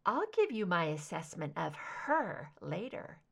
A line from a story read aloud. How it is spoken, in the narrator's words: she murmured